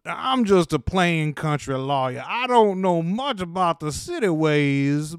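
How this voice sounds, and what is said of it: Thick country lawyer accent. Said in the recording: “this is the thickest accent ... You could cut it with a dull knife. Right? It's so thick and rich.”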